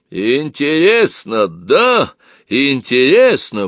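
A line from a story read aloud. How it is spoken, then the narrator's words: Deep-voiced bark. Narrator (Russian): басом рявкнула Зинаида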